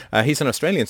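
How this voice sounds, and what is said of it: Put-on Australian accent. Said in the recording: “Sorry, I always want to do that accent.”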